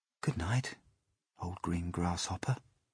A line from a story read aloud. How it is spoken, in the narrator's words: he whispered